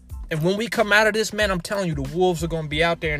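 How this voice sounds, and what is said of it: Excited, passionate, pumped-up delivery. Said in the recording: “I hope you can hear it in my voice. I hope you can hear the passion. I'm excited. I'm pumped up.”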